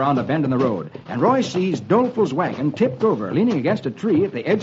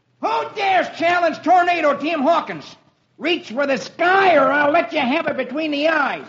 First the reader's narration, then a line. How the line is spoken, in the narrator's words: a young boy shouts down